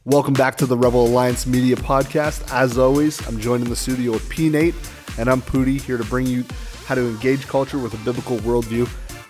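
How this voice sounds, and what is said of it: Congested voice from a cold. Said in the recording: “I've got a bit of a cold”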